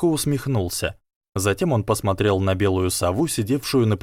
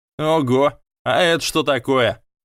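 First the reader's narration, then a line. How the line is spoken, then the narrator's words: Mocking drawl. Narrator (Russian): Насмешливо протянул Драко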